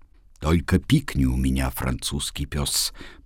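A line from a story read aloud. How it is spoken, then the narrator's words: Angry whisper. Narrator (Russian): прошептал злобный голос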